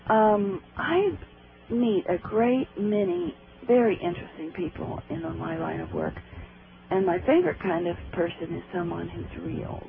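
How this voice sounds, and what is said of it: Hoarse, strained voice. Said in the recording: “I'm losing my voice tonight.”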